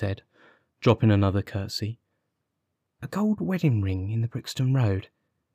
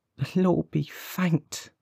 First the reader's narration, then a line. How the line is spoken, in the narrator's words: cried the old woman